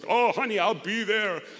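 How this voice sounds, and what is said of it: Imitates another person's voice. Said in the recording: “my best impression of Arnold Schwarzenegger”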